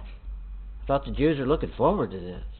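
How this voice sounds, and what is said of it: Sarcastic tone. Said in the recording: “I'm sounding real sarcastic ... I'm being sarcastic”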